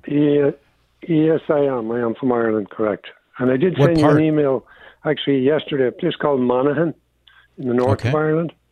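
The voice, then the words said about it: Slight Irish brogue. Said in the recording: “I detect a slight brogue in your voice. Are you from Ireland?”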